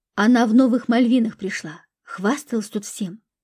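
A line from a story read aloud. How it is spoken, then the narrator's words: Whisper. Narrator (Russian): прошептала Любе Катя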